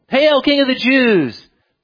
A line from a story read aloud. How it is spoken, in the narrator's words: they, 600 men, chanting